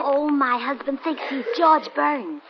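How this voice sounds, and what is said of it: Whispering. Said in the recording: “What are you two whispering about?”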